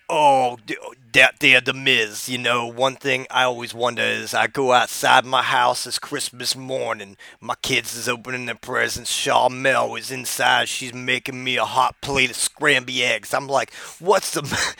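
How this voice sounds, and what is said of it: Imitates another person's voice. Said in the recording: “I'm going to do my Booker T impression for you right now.”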